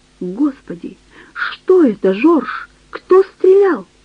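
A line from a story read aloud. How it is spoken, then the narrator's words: Frightened shout. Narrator (Russian): Диана испуганно закричала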